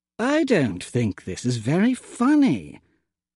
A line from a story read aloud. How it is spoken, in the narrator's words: I mumbled to Toadsworth